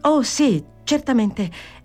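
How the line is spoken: Exclaimed. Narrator (Italian): esclamò Fanny alzandosi in tutta fretta

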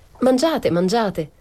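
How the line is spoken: Worried exclaiming. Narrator (Italian): esclamava la nene preoccupata

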